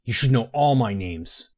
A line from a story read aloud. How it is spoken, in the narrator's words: the young man snarled